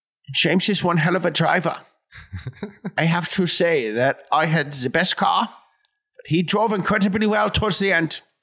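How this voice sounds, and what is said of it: Impression of Daniel Bruhl's Niki Lauda. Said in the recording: “It was an impression ... like teeth in there. That's like a big, big part of the impression is getting that. The big teeth ... It was like an impression of the guy from the movie ... Daniel Bruhl”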